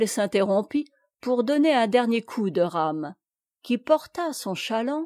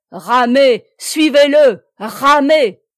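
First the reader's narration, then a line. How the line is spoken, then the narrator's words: Shouted. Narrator (French): cria Plélan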